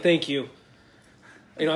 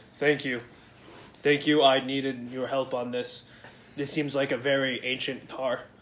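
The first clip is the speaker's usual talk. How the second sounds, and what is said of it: Put-on character voice. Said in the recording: “I'm going to give him a voice.”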